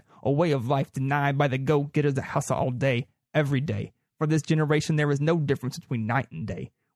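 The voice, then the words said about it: Reads aloud in a weird accent. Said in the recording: “I just got to read it in a weird accent ... that is my impersonation of the person who wrote that slogan”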